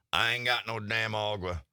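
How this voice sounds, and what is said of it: Good put-on Texas accent. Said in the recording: “You know, he's Texan. That was a Texas accent. ... And it was really good.”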